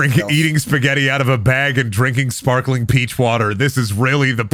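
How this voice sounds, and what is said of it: Usual voice. Nothing is said of it.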